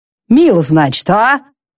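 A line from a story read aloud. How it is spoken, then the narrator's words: Savage's grumble. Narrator (Russian): пробурчал дикарь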